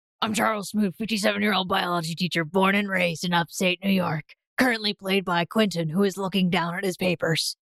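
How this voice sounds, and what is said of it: Imitates another person's voice. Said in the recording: “Wow, is that what I sound like? That's a pretty good impression”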